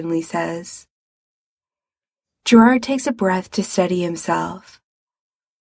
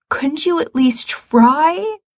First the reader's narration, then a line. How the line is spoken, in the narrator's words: Gerard says desperately